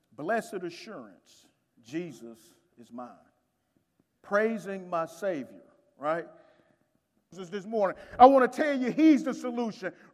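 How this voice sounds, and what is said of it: Southern country accent from Alabama. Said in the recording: “I'm from the Birmingham, Alabama, and so that's where the country accent comes from ... that's one country brother right there”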